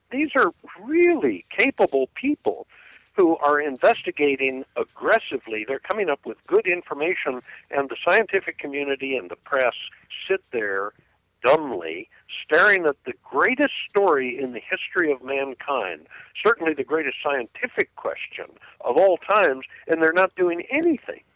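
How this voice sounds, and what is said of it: Audibly frustrated, agitated tone. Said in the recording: “I'm very frustrated. I'm sure our listeners can hear it in my voice.”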